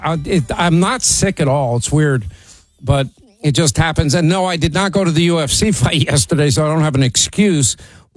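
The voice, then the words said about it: Slightly sore voice. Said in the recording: “My voice is a little sore.”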